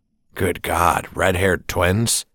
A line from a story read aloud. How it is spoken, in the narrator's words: Celia chuckled